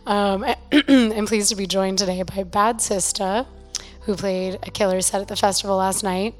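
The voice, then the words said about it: Slightly hoarse, partly lost voice. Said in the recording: “I have lost my voice a little bit, so please excuse me.”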